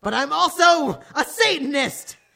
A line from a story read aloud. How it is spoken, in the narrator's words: Hagrid paused angrily